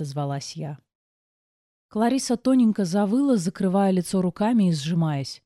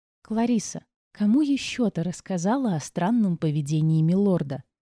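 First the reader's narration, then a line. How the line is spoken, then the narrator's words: Deliberately sweet question. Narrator (Russian): Нарочито ласково спросила я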